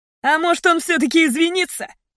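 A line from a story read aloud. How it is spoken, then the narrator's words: Mocking tone. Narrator (Russian): насмешливо сказал другой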